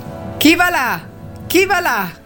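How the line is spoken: Sentry shouting, third time. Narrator (Italian): gridò per la terza volta la sentinella

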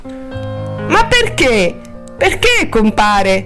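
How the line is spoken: Upset whimpering. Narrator (Italian): piagnucolò Helen, turbata

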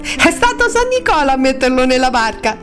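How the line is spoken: Laughing children. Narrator (Italian): I bambini ridendo

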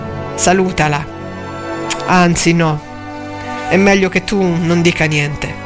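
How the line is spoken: Flat, expressionless voice. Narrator (Italian): disse ancora Angustina con voce immobile

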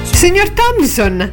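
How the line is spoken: Exclaimed. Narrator (Italian): esclamò

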